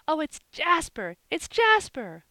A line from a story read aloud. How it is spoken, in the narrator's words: cried all the children in a breath